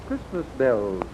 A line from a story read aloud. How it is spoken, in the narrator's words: answered the woman, slowly and softly